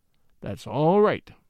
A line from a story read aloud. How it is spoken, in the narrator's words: Charlie said in a low voice, which I could only hear